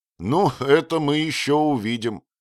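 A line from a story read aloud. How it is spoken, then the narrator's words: Prince laughing involuntarily. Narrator (Russian): невольно засмеялся принц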